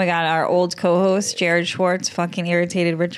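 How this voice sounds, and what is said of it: Usual voice. Nothing is said of it.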